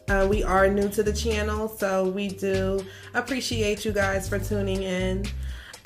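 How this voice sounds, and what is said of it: Philadelphia accent. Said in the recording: “I'm from Philly. Some of you that are from up north, you guys can probably hear the accent in my voice.”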